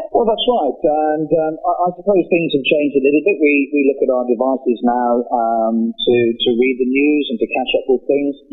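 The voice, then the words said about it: British accent. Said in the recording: “you might tell from my accent, I'm from the UK originally”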